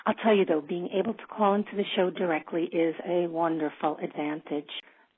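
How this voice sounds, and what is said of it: New York accent. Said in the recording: “I fear my native New Yorker accent is shining through”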